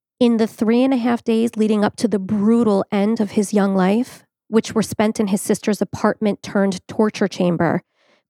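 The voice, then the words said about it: Voice cracking with emotion. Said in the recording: “my voice is already cracking”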